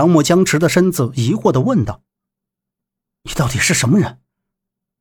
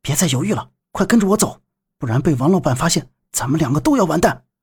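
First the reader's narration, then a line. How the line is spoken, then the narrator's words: Whisper. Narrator (Chinese): 小杰小声说道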